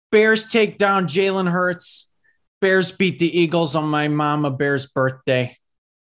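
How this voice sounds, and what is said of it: Put-on Chicago Bears fan accent. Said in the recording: “Going to break out the Bears accent”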